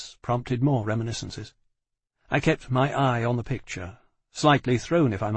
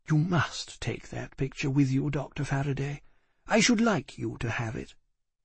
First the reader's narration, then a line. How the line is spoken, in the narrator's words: Ayres said gently